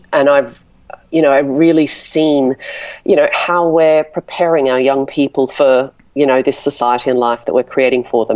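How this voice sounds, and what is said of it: Australian accent. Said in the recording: “obviously you've got an accent ... your native Australia”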